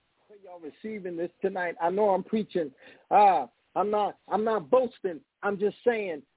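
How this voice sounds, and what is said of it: Excited yelling preacher. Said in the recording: “I know I'm yelling. I know I'm excited.”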